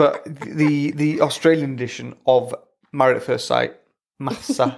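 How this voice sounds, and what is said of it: Usual voice. Nothing is said of it.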